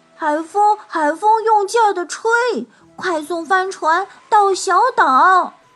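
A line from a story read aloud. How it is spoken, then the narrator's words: Joyful loud shout. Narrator (Chinese): 小灰狼听了，高兴极了，大声喊起来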